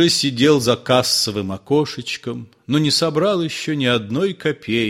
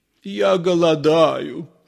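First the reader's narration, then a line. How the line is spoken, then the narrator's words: Crackling voice. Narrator (Russian): сказал Воробьянинов трескучим голосом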